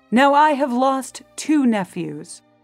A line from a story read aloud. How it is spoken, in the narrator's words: The Duke of Berry cried